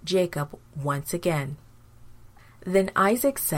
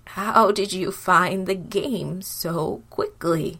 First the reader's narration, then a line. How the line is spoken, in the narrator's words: asked Isaac